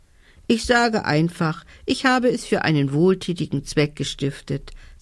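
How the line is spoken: Loud. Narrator (German): sagte sie laut

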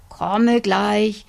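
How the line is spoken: Old man calling from kitchen. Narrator (German): rief der alte Mann aus der Küche

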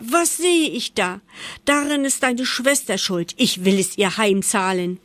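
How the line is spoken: Shouting mother. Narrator (German): schrie die Mutter

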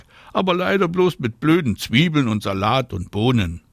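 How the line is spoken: Calls back. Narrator (German): ruft Anna zurück

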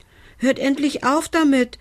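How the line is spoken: Calling out. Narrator (German): rief er

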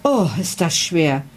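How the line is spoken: Girl groaning. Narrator (German): stöhnte das Mädchen

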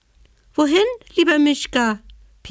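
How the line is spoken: Small squeaky animal voice. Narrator (German): piepste die Haselmaus

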